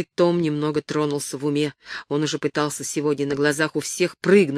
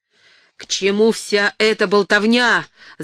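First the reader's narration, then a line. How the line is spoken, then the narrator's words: Angry yelling. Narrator (Russian): заорал он на Барреса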